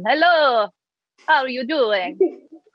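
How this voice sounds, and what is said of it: Put-on Welsh accent, not bad. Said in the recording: “Welsh accent ... that weren't bad.”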